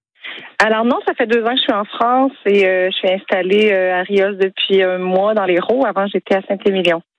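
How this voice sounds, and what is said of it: Québécois French accent. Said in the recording (French): “que j'aime cet petit accent. ... Du Québec.”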